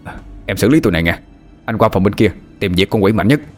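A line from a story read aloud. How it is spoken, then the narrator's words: Shouting. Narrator (Vietnamese): Hà hét lên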